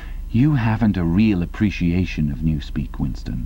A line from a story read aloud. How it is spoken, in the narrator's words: he said almost sadly